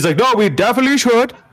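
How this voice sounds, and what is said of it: Put-on Indian accent. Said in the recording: “Why was your Hitler Indian? ... you made an Indian accent ... That was an Indian accent.”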